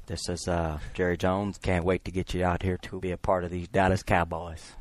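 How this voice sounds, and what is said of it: Jerry Jones impression. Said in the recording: “that's the best impression that we've heard maybe in Studio 66 ... taking a pass at Jerry Jones”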